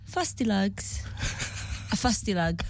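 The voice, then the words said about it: Put-on British accent. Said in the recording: “say it in your British accent ... I'm doing different ones. You want a Geordie Shore one?”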